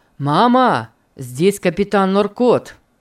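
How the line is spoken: Loud. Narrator (Russian): сказал Питер громко

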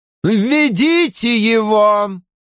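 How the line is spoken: Loud female voice. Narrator (Russian): громко сказала Элайда

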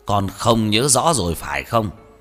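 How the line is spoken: Stern shout over phone. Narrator (Vietnamese): Tiếng hét lớn đầy vẻ nghiêm khắc vang lên từ trong điện thoại

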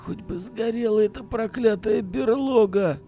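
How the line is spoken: Barely audible whisper. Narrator (Russian): Еле слышно прошептал Акимов

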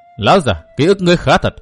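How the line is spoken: Cold. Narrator (Vietnamese): Văn Thiên Hạo lạnh lùng nói

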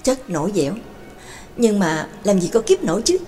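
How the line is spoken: Soft exhaled sigh. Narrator (Vietnamese): Đường Mẫn bất giác khẽ thở hắt ra một hơi

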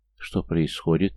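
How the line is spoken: Quiet question. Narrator (Russian): негромко спросила Дуня

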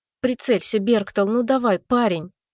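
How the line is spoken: Frightened babbling, spirit. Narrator (Russian): испуганно лепетал дух

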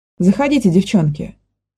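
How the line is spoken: Plain. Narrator (Russian): сказал В

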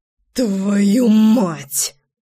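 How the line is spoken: Gasped. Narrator (Russian): выдохнул

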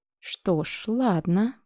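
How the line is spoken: Drawled. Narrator (Russian): протянула я

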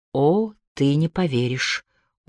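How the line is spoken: Weary reply. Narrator (Russian): устало отозвался Филипп

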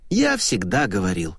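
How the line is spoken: Sigh. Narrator (Russian): вздохнул он

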